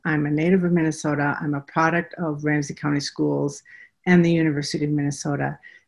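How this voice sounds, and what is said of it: Minnesota accent. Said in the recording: “I hope you hear my Minnesota accent.”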